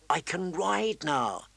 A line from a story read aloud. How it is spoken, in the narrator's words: he whispered to his friend